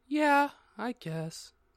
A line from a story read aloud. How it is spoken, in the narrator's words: I said sadly